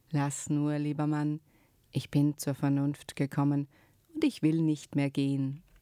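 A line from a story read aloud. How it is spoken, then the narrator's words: Suddenly calm. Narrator (German): war sie plötzlich ganz ruhig und sagte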